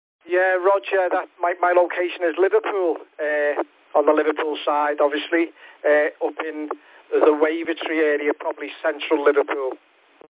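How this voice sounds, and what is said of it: Liverpool accent. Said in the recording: “I'm in Liverpool, as you can probably tell by my accent.”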